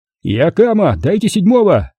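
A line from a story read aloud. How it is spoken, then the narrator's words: Shouting. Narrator (Russian): Роман закричал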